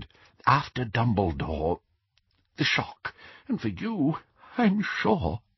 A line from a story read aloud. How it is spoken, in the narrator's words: he whispered